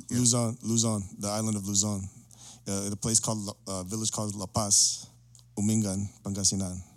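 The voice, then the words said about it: Filipino accent on place names. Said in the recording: “Ooh, and the accent came out.”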